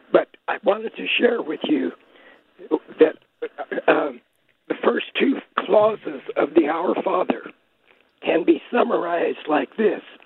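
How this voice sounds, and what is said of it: Sick, strained voice. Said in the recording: “I'm calling from my COVID bed right now, and that's why my voice is like this”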